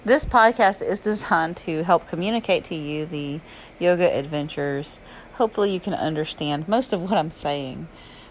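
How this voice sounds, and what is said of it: Southern US accent. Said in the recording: “podcasting from Alabama ... my southern accent and slang”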